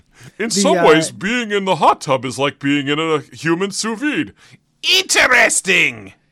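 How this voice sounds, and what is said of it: Nasal impression of another speaker. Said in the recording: “Is that your impersonation of me? ... it's just a little more nasal ... You did get my cadence.”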